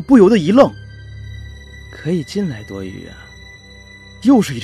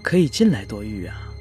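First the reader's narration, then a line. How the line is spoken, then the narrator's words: Gentle calling. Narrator (Chinese): 屋内突然传来了一阵温柔的呼唤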